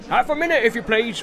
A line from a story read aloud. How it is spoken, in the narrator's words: shouted the man over his shoulder